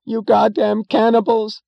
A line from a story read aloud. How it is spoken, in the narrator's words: screamed a woman, breaking into sudden hysterical sobs